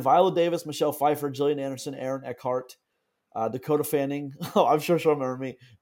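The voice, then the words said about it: Congested, odd-sounding voice. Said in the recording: “I have my allergies combined with the fact that my voice sounds really weird.”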